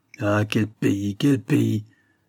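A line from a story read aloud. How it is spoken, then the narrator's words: Woman grumbling. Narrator (French): grommelle l'autre femme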